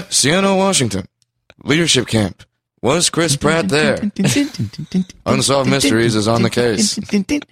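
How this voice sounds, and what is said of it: Unsolved Mysteries narrator impression. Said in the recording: “this needs to be an episode of Unsolved Mysteries ... That's the first time I ever tried to do that impression. I don't know if it was good or not. ... Pretty good.”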